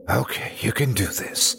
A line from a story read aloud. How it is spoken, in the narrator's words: I whispered to myself